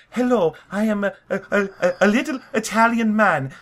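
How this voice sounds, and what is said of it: High, whispery fake Italian accent. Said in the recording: “the worst Italian accent ... always in that kind of high, whispery register”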